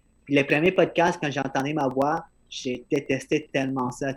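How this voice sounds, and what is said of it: Accented, slightly mumbled speech. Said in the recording (French): “je mâche mes mots, j'ai un accent”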